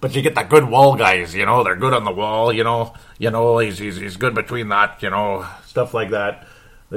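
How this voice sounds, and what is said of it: Put-on regional accent. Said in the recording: “Now I'm like getting a permanent accent. I better stop it.”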